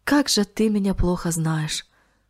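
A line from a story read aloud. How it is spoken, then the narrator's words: Sighing. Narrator (Russian): вздохнул он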